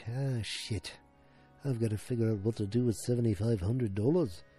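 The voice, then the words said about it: Put-on Liverpool-style accent. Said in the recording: “This is not how I talk. I'm not from Liverpool. I'm not sure if that's a Liverpool accent.”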